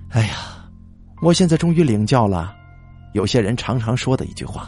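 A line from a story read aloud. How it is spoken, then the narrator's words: Long bitter sigh. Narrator (Chinese): 李志东也跟着长叹一声，苦涩的说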